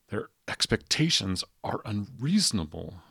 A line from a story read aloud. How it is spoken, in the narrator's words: he said in a strained whisper to no one in particular